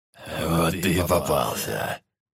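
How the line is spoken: Hoarse chuckle from behind. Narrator (Russian): Позади послышался хриплый смешок

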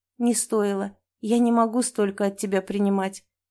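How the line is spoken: Quiet speech. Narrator (Russian): тихо говорю

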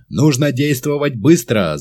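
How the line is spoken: Shouting. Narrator (Russian): закричал Мерстон

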